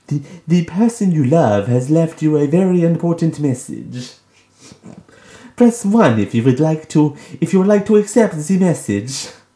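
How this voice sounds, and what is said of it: Impression of a spam voicemail message. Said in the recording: “doing an impression... Of this”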